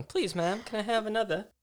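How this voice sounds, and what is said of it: Poorly done put-on accent. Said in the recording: “every accent that I try and do is just the same. Just terrible. The same. The same, meaning terrible.”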